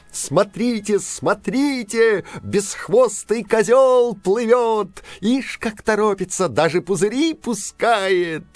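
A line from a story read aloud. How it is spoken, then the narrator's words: Distant cheerful shout with clapping. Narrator (Russian): где-то далеко, может, на самом дне моря, кто-то захлопал в ладоши и весело закричал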